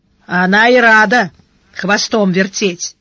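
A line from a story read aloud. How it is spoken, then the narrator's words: Gloomy. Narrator (Russian): мрачно сказал Шедарис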